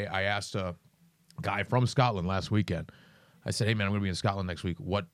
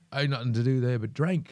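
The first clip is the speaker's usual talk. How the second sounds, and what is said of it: Put-on Scottish accent. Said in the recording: “I don't know if my Scottish accent's any good”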